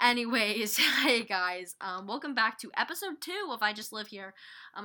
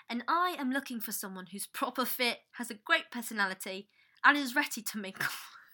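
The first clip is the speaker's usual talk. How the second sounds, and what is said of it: Put-on British accent. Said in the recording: “it's been so hard for me not to have a British accent with every single thing I do”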